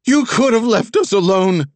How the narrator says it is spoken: she screamed

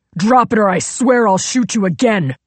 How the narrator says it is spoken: Zig shouted

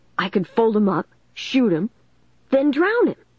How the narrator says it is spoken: Dennis exclaimed

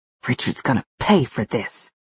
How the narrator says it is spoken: Val hissed

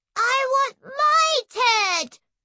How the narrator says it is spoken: Debbie shouted

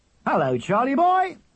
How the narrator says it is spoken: shouted his father

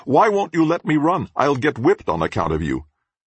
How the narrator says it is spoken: I shout to him

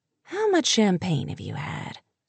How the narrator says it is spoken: he asked softly

